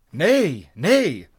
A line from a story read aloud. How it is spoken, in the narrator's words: they cried eagerly